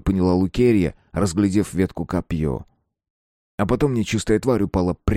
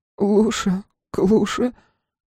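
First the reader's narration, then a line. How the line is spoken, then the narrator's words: Sob. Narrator (Russian): всхлипнула Лукерья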